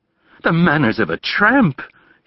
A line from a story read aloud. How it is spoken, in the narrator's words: he cried